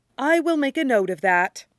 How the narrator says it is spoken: Stiles says solemnly

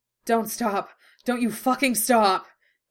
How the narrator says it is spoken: he ground out, groaning

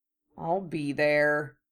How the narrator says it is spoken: he grumbled

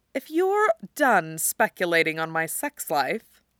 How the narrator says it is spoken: she purrs, and that's the flimsiest reprimand that Tony has ever heard

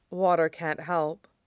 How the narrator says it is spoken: Amaya said sadly

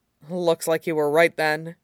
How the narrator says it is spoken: murmurs

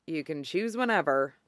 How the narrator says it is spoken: Kenma mutters

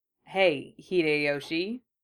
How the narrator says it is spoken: they murmured

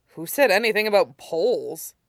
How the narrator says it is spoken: Hung chuckled

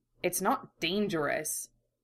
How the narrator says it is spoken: Ed muttered

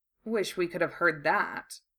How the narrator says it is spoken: Draco murmured

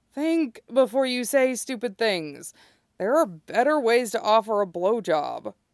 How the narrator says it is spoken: Kenma groans

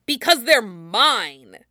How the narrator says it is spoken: Kiba snaps

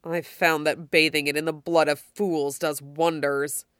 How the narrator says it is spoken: says menacingly

